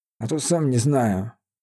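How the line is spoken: Grumbling. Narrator (Russian): буркнул тот

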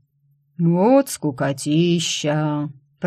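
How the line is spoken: Bored drawl. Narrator (Russian): протянул Война

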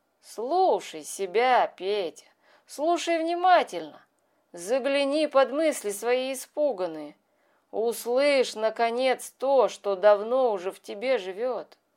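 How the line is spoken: Purring voice, calm and mocking. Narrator (Russian): неожиданно фыркнул в нем кто-то, и урчащий голос Мява спокойно и насмешливо сказал

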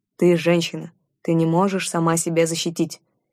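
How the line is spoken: Irritated grumble. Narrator (Russian): вновь раздражаясь, пробурчал он

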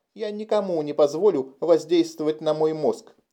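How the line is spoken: Shrill squeal. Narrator (Russian): взвизгнула Кэти

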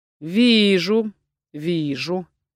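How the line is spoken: Drawn out. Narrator (Russian): протянул он

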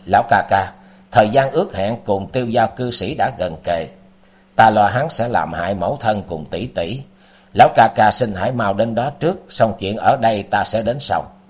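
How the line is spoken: Cold speech. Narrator (Vietnamese): Tư Đồ Văn sắc mặt lạnh lùng nói

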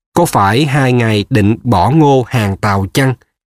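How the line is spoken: Feigned alarm. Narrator (Vietnamese): Hám Trạch giả vờ giật mình sợ hãi

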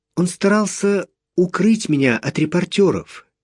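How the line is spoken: Quiet explanation. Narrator (Russian): тихо объяснила

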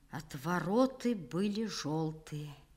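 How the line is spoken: Quiet. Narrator (Russian): сказал тихо

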